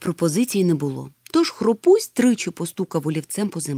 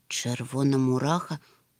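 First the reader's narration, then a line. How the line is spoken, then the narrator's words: Absent-minded mutter. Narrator (Ukrainian): пробурмотів неуважно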